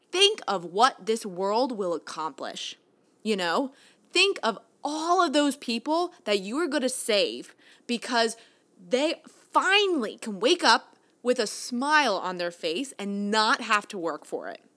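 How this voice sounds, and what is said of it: Excited, energetic tone. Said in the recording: “you can tell in my tone, I am so excited”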